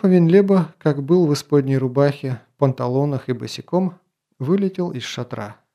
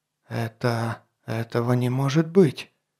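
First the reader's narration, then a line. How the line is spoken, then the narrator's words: Frightened whisper. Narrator (Russian): испуганно прошептал граф Авенлеба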